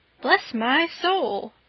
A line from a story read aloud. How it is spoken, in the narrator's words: exclaimed Mr